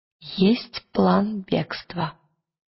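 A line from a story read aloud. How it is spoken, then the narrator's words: Quiet. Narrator (Russian): тихо сказала Лира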